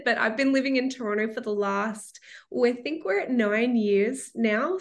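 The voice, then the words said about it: Australian accent. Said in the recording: “born and raised in Melbourne, Australia, which you can probably tell from the accent”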